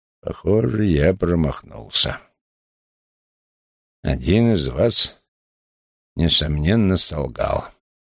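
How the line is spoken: Loud exhale, grumbling. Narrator (Russian): набрал полную грудь воздуха, шумно выдохнул и проворчал

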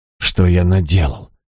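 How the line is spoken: Breathed out. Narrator (Russian): выдохнул он

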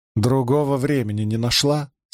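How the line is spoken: Plain. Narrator (Russian): спросила Найниф

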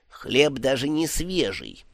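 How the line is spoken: Grumbling. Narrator (Russian): пробурчал Ом

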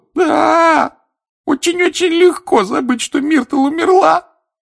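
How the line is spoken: Sobbing ghost girl. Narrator (Russian): рыдала плакса Миртл

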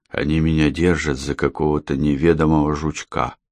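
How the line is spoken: Undertone. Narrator (Russian): сказал он Андрею вполголоса

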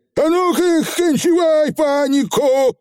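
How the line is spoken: Fierce yell. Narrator (Russian): заорал Явор заядло

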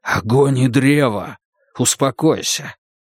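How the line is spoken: Whisper. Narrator (Russian): услышал шепот

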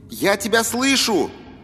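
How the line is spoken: Shouting. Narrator (Russian): прокричал он

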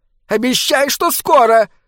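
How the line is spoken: Shrill squeal. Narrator (Russian): взвизгнула маска

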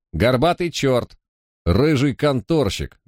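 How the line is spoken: Shout. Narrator (Russian): Один из них крикнул

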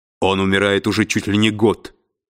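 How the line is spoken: Rough voice. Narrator (Russian): грубо произнес Фаркосиган

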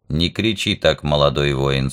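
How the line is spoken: Calm. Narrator (Russian): спокойно сказал Вок

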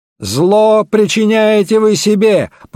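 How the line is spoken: Furious shout. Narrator (Russian): побелев от ярости, выкрикнул Стенджерсон

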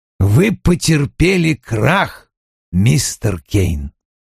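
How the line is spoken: Icy. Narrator (Russian): ледяным тоном произнес Вульф

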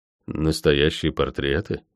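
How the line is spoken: Mumbled. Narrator (Russian): пробормотал я

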